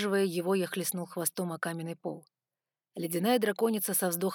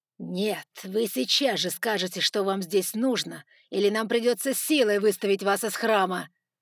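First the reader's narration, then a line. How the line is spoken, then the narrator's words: Barked, no politeness. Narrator (Russian): рявкнул Джефферсон, уже не пытаясь играть вежливость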